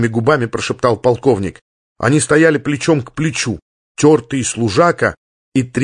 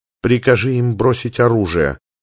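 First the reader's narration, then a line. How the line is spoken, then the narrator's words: Quiet woman's reply. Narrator (Russian): столь же тихо ответила женщина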